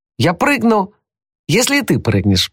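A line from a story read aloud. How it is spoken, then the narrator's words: Shouted. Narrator (Russian): прокричал Том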